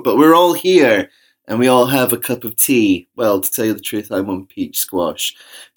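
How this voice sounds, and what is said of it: Loud, hoarse sore-throat voice. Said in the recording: “my loud voice because I have a sore throat”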